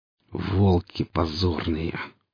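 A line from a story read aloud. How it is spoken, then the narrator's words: Hateful, through gritted teeth. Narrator (Russian): процедил с ненавистью сталкер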